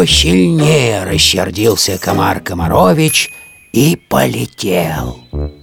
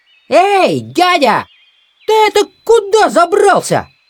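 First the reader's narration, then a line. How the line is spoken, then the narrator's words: Loud shout. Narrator (Russian): Закричал комар Комарович на весь лес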